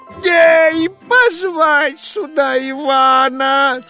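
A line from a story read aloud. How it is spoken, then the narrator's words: Hasty shout. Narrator (Russian): царь поспешно закричал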